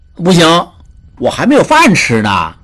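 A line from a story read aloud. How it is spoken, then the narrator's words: Beggar, delighted, thoughtful. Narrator (Chinese): 叫花子大喜 想了想，又说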